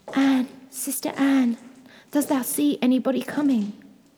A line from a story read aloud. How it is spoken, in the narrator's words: cried out very softly